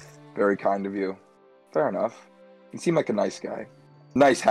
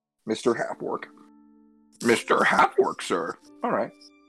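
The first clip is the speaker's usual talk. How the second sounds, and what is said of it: Yoda impression. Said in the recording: “That was my Yoda impression.”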